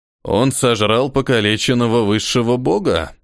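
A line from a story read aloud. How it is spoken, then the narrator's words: Snorting. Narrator (Russian): хмыкнул Хриса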